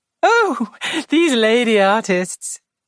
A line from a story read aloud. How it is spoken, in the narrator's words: said Joyce, laughing